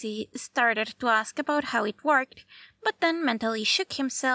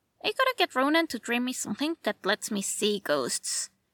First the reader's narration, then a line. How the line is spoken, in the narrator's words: muttered clearly wishing he wasn't being excluded from half of what was going on